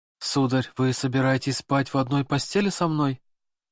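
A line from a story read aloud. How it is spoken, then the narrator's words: Trembling voice, asking. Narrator (Russian): Дрожащим голосом спросила Екатерина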